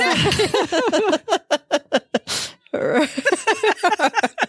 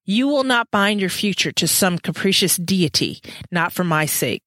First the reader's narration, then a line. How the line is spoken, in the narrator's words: Matthew said, his voice shaking with fury